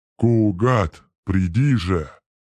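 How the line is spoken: Breathless exhale. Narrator (Russian): выдохнул Гангрел

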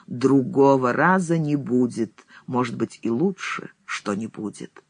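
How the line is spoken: Grim, solemn. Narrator (Russian): говорит мрачно и торжественно

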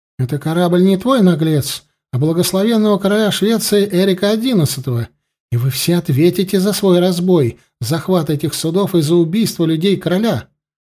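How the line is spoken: Angry exclamation. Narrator (Russian): Воскликнула покрасневшая от гнева старшая сестра

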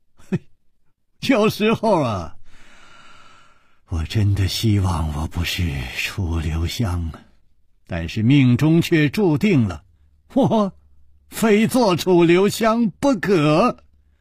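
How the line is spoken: Smiling. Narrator (Chinese): 楚留香笑了笑

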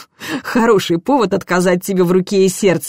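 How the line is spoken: Laughing. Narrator (Russian): засмеялась

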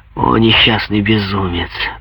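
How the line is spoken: Muttered. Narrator (Russian): пробормотал Куактье

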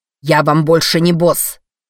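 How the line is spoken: Furious bark. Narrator (Russian): рявкнул Эдди, такой багровый, словно его в любой момент мог хватить удар

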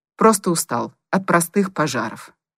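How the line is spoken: Angry reply. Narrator (Russian): сердито ответил Коротков

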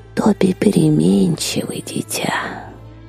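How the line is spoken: Barely audible wheezing mutter. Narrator (Russian): еле слышно просипела под нос Вильда

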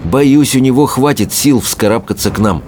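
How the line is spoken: Plain. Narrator (Russian): сказал Икинг

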